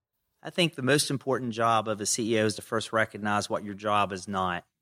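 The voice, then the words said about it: Southern American accent. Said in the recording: “get rid of my Southern accent ... You can see how successful that was ... who was that kid with that Southern accent?”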